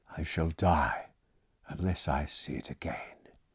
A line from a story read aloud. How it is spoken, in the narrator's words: he said, in a quiet voice not like his own